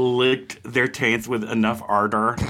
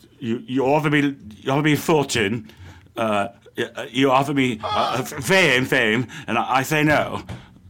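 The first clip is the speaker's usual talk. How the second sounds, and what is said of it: Imitates another person's voice. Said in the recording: “your Elon impression. That's so good.”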